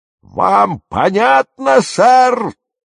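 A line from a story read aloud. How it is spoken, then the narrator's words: Roaring. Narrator (Russian): снова взревел капитан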